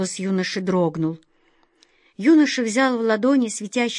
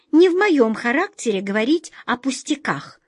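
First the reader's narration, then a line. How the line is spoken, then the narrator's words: Irritated squeak. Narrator (Russian): с раздражением пропищала мышка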